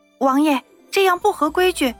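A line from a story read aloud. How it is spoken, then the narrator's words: Timid, quiet voice. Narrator (Chinese): 夏妙玲也不敢再反抗，小声的说道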